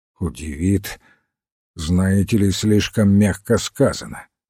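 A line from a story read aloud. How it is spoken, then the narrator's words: Gloomy reply. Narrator (Russian): мрачно ответил Пейн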